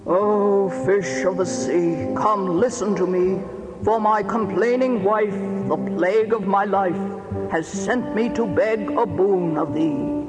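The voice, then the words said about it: Very mournful voice. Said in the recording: “in a very mournful voice”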